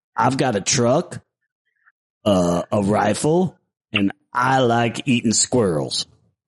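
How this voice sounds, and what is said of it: Exaggerated Southern accent. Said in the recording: “I want to hear your Southern accent. ... Like a bad impersonation of me.”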